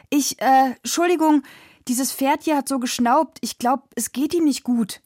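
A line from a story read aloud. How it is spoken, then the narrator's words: Calling out. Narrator (German): rief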